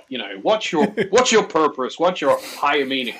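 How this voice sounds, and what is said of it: Put-on cheesy American accent. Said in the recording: “I'm doing it with an American accent ... there's definitely kind of a cheesiness about it”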